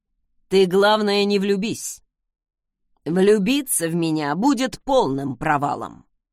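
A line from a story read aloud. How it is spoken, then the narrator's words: Wry snort. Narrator (Russian): хмыкнул он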